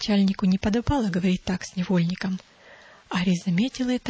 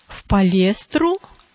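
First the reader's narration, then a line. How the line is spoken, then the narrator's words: Exclaimed. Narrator (Russian): воскликнул Арий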